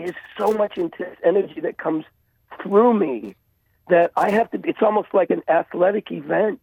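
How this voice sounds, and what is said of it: Raggedy, worn-out voice. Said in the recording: “my voice is so raggedy”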